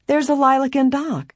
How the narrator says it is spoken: Helen cried

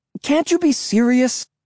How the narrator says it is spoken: I cried shrilly

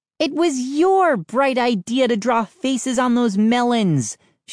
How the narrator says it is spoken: she snarled

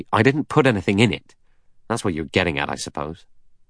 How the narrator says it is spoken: Blore said angrily

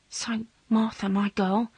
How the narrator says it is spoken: whispered

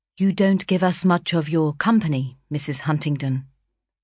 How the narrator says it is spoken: observed after a brief pause

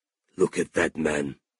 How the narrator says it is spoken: he whispered to Ralph

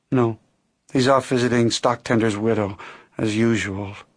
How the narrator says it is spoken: Jean said with a sigh

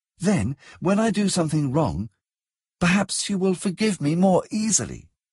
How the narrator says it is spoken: she said earnestly

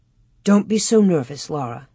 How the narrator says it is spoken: Ma murmured as if she were half asleep

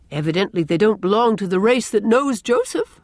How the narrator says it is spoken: laughed Gilbert

